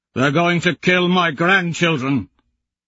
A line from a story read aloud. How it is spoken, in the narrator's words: he shouts back